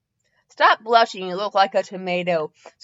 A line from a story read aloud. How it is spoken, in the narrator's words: Tsunade said, laughing